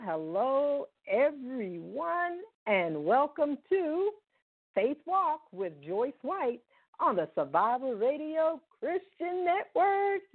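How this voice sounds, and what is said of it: Excited, energetic voice. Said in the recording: “I am excited. I know you can hear it in my voice.”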